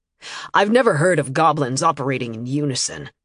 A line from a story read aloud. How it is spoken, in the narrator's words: he said grimly